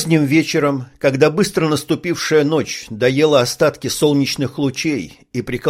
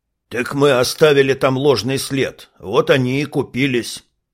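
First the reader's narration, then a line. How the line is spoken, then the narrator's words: Grumble. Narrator (Russian): проворчал здоровяк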